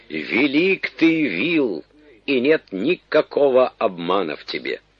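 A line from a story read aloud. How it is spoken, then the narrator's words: Loud exclamation. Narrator (Russian): царь воскликнул громким голосом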